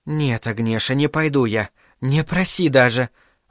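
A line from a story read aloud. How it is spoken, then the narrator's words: Breathed out. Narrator (Russian): выдохнула пирожка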